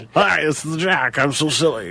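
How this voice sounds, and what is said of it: Imitates another person's voice. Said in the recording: “God, that sounded just like him. That was a good impression.”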